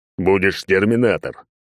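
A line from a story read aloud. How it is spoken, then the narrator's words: Amused snort. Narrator (Russian): Алекс хмыкнул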